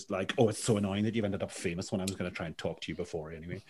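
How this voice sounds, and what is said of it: Poor Northern Irish accent. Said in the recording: “my terrible Northern Irish accent”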